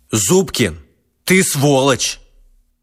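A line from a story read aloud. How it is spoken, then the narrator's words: Loud. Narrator (Russian): громко сказал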